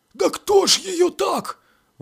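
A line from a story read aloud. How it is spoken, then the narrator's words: Breathed out. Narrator (Russian): выдохнул, наконец, Агафон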